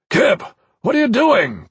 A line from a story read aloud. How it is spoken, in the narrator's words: Corvin Danavis shouted